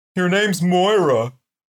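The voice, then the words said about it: Imitates another person's voice, horse-like. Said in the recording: “Is that your Cher impression? ... That's what Cher sounds like. ... That's kind of a Mr. Ed kind of thing.”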